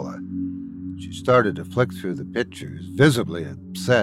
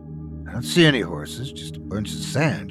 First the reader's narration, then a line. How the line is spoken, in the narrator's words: she muttered